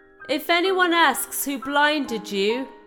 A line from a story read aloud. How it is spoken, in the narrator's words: he shouted